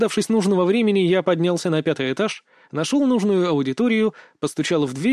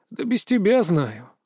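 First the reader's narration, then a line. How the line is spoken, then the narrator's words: Sighing. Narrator (Russian): вздохнул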